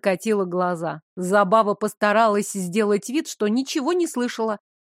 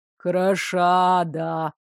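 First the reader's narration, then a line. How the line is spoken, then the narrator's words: Deep supportive voice. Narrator (Russian): пробасили ему в поддержку откуда-то справа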